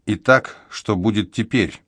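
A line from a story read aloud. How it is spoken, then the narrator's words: Light, sighing voice. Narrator (Russian): Она вздохнула легко, словно ветерок в листве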